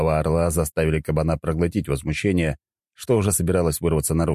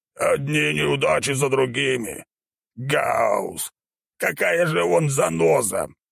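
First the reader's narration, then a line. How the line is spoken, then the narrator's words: Boar's barely restrained growl. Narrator (Russian): прорычал кабан, едва удерживая себя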